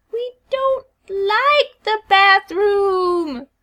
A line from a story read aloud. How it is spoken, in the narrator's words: Sally whines